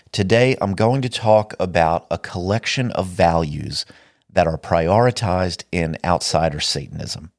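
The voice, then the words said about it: Sick, slightly off-sounding voice. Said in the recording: “I've been very sick for the last week ... my voice is a little weird through this episode”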